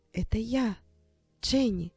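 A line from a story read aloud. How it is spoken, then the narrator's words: Quiet. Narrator (Russian): тихо сказала тетя Розмари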